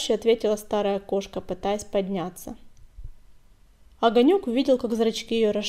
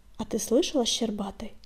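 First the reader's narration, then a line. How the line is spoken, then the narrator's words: Whispered question. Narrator (Russian): шепотом спросил Огонек Клубка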